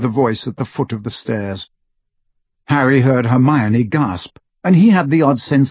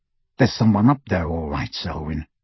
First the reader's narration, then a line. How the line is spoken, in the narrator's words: said the second man sharply